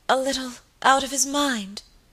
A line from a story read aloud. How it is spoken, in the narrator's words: faltered Lady Audley